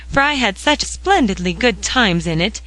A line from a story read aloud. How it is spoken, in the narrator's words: cried Polly